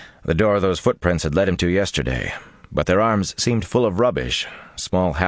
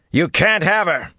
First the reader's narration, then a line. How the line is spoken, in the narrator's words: said loudly